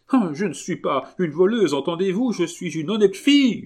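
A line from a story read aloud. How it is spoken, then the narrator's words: Woman screaming. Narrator (French): hurla la drôlesse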